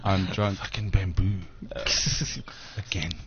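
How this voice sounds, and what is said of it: Drunk panda character voice. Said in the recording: “Here's my impersonation of a drunk panda. ... that just sounds like a regular panda.”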